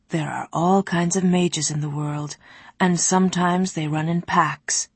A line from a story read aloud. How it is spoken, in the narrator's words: Nawat replied